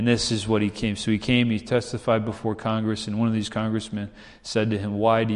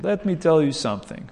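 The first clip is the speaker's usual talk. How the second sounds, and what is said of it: Imitated Romanian accent. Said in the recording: “with his accent, Romanian accent,”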